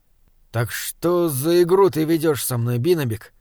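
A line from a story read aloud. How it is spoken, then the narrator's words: Gloomy question. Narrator (Russian): мрачно спросил Саймон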